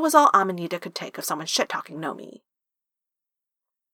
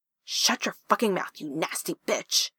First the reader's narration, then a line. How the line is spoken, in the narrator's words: Amanita hissed, grinning with vicious amusement